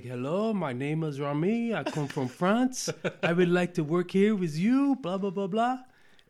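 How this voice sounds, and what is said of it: Fake French accent. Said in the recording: “I put on this fake French accent like this”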